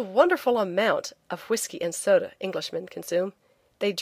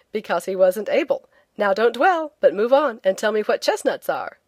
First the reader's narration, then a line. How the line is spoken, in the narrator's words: I said teasingly